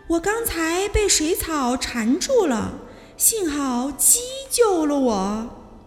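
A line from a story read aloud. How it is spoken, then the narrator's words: Loud voice. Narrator (Chinese): 杰西卡大声地说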